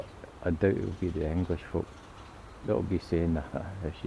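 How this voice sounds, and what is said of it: Usual voice. Nothing is said of it.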